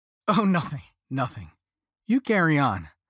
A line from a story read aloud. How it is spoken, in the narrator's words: Peyton said, as they tried to stifle their laughter